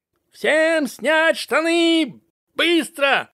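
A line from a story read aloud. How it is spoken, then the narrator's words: Yelling sergeants. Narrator (Russian): орали сержанты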